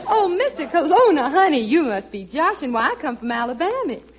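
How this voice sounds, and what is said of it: Put-on Southern belle accent. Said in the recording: “a girl with a southern accent ... I'm sure enough from the little old South ... I could have sworn you came from Boston”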